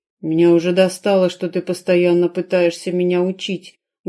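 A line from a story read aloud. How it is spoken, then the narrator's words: Warrior's muffled growl. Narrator (Russian): глухо прорычал воин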